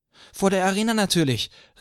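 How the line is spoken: Girl calling out. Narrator (German): rief ein Mädchen

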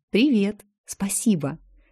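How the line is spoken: Whispered. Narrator (Russian): также шепотом ответила она

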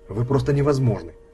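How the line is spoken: Sharp. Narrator (Russian): резко сказала она

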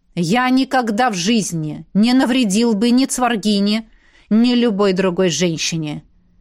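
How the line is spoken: Restrained growl. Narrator (Russian): сдерживая себя, практически прорычал мой мужчина

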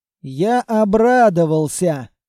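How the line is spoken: Crushed voice. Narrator (Russian): ответил фермер убитым голосом

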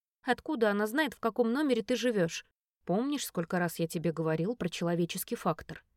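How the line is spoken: Plain question. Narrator (Russian): спросил вместо ответа

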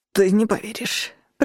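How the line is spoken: Breathless wheeze. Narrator (Russian): прохрипел, снова сумев вдохнуть

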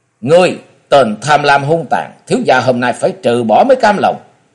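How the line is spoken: Angry shout. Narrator (Vietnamese): Bực mình, chàng quát đôi mắt giận dữ quát lên

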